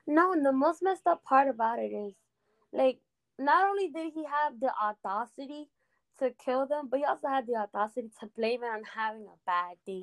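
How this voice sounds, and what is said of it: Spanish-accented English. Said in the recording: “you know my English is like, you know, the accent comes in, I say stuff wrong ... the Spanglish is coming through”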